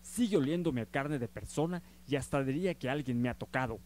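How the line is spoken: Exclaimed. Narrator (Spanish): exclamó

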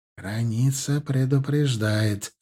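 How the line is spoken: Barely audible mutter. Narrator (Russian): едва слышно пробормотал Алим

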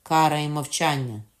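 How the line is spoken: Triumphant. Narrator (Ukrainian): сказала Катерина переможним тоном

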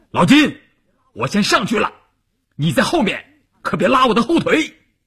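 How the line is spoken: Loud. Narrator (Chinese): 关山林大声地说

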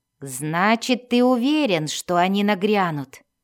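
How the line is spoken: Plain. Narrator (Russian): спросил Бреннер

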